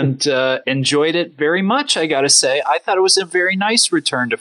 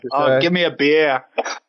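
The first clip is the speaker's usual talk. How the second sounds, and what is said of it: Put-on Boston accent. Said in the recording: “Doing a Boston accent.”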